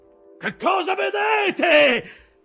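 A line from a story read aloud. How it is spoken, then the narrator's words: Shouted. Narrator (Italian): gridò Aqab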